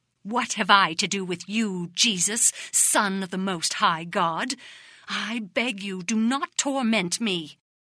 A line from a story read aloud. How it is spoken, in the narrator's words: the demons spoke through them, crying furiously